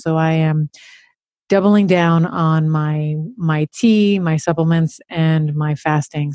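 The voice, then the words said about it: Throaty, sultry voice from illness. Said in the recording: “my voice is much, uh, dare I say, sexier, but much more throaty and sultry. And that is because I feel myself fighting whatever virus”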